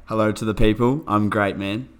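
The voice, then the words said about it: Stiff robotic delivery. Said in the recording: “Why do you sound so robotic? Loosen up.”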